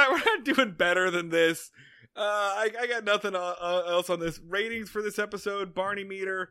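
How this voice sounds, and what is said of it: Usual voice. Nothing is said of it.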